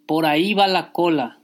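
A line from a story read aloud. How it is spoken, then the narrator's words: Crowd shouting. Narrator (Spanish): fue el grito general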